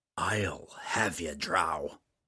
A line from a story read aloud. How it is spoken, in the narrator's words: growled again quietly